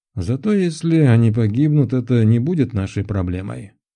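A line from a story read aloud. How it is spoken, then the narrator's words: Dry. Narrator (Russian): сухо добавил кто-то из ученых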